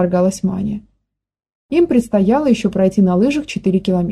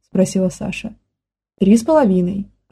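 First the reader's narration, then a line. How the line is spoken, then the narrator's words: Plain. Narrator (Russian): ответил Зорик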